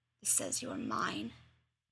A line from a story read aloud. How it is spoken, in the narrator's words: Nero whispers